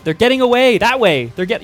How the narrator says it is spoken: And shout

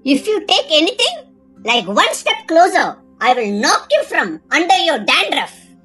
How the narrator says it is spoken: snapped Sally

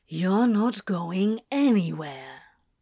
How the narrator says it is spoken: Crowley said, struggling to keep his voice calm

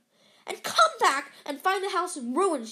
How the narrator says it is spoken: she snarled

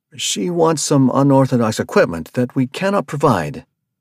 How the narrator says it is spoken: the van master pleaded

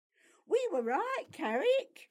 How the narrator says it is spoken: Piotr said excitedly

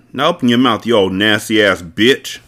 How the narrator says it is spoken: growled

